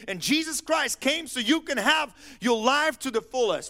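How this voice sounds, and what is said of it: Yelling. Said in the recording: “Why am I yelling?”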